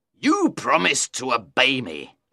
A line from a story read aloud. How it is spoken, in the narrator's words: he said angrily